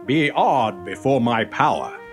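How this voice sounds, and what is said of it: Deep booming character voice. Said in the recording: “The toaster had its deep voice back.”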